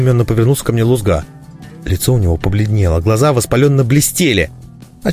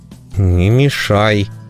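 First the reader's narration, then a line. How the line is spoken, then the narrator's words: Through gritted teeth. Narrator (Russian): сквозь зубы процедил я прохиндею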